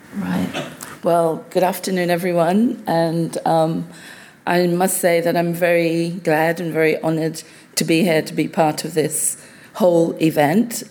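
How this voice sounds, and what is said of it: Croaky voice. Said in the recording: “my voice is a little croaky”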